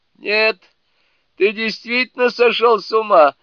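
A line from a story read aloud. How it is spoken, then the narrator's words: Loud laughter. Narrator (Russian): расхохотался дровосек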